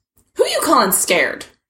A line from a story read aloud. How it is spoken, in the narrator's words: He snapped at Aggie